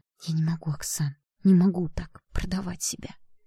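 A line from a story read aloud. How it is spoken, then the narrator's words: Quiet mother's reply. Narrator (Russian): тихо отвечала мама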